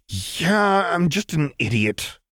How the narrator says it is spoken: Jinx grumbled dejectedly

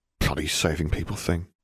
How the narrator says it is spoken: he mumbled

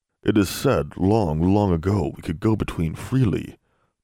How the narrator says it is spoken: Poe murmured

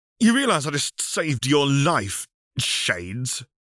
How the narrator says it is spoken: The birdman scoffed

